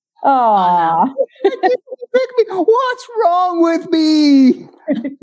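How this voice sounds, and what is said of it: Tearful, crying reality-show contestant voice. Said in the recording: “my bachelor impression? ... oh, that was spot on. ... We're getting more tears.”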